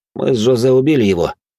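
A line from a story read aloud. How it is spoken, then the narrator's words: Plain. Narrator (Russian): ответил я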